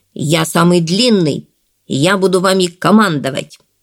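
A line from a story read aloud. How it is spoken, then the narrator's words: Stern. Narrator (Russian): Средний Ликки строго взглянув на братьев, сказал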